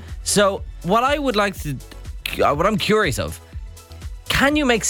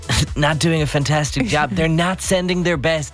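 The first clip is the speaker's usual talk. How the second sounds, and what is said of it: Donald Trump impression. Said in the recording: “that in your Trump voice”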